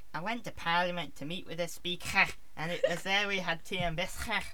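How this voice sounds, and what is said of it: Attempted Liverpudlian accent. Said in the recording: “do the Liverpudlian ... I can't do that accent.”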